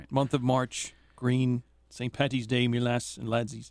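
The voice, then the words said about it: Put-on Irish accent. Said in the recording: “do an Irish impression”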